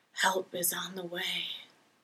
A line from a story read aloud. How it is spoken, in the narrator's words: a disembodied voice whispered in his ear